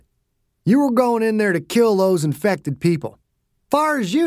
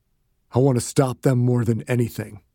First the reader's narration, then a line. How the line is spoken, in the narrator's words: he said quietly